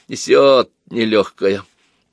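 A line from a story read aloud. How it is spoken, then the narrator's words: Grumbling. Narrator (Russian): проворчал Пашка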